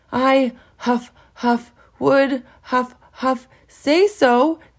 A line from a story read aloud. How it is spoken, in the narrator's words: gasped Handsome